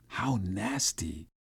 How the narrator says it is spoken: whispered

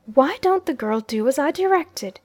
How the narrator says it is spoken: in an impatient tone

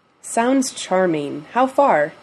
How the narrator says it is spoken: Dean asks him

